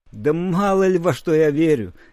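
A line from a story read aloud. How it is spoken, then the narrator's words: Old man's serene laugh. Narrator (Russian): безмятежно рассмеялся старик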